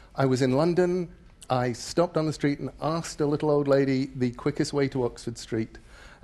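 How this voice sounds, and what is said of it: English accent. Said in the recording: “I still have enough of an English accent that all around the world people say to me, "You aren't from around here, are you?"”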